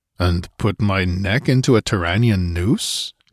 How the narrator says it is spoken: he grunted

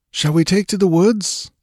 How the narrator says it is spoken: panted Balthus

